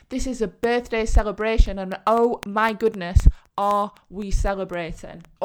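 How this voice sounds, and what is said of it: Excited, energetic voice. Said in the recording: “you can see how excited I am. You can hear it in my voice.”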